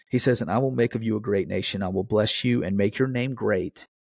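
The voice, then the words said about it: Voice sounds rough and strained. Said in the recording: “my voice sounds terrible”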